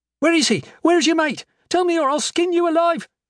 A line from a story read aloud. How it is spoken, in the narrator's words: screamed